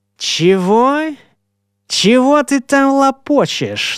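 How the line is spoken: Mocking question. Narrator (Russian): насмешливо переспросил

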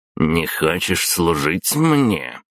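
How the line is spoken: Growl. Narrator (Russian): прорычал Дмитрий

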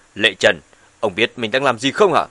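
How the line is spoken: Woman's shout. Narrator (Vietnamese): Bà ta quát

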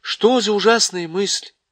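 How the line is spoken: Exclamation. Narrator (Russian): воскликнула Джил

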